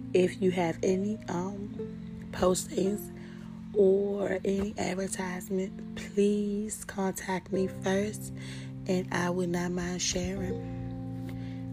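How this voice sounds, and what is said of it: Strained voice cutting in and out. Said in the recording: “my voice is going in and out”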